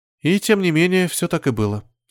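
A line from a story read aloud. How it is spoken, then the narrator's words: Calm reply. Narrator (Russian): спокойно ответила Алена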